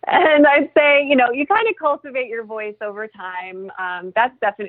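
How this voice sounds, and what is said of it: Usual voice. Nothing is said of it.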